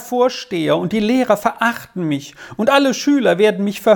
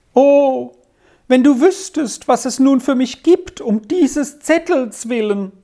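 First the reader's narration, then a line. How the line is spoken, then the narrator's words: Wailing lament. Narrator (German): jammerte Arthur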